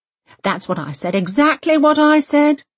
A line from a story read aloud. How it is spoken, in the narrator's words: Britt Marie calls out eagerly